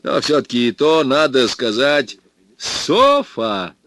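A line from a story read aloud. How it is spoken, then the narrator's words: Sudden shout. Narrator (Russian): Вдруг крикнул мой новый знакомый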